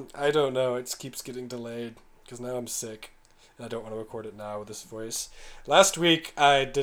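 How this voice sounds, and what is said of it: Usual voice. Nothing is said of it.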